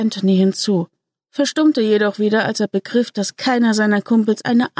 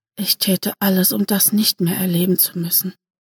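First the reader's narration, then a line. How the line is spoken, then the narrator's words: Barely audible murmur. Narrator (German): murmelte kaum hörbar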